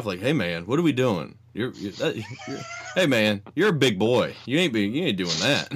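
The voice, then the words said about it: Southern accent, Undertaker impression. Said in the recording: “He's the Undertaker, of course, because that's pretty much any of these Southern accent impressions become the Undertaker”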